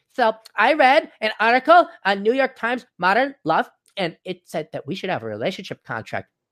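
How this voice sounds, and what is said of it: Mocking effeminate millennial voice. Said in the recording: “I'm doing my limp-wristed millennial impersonation.”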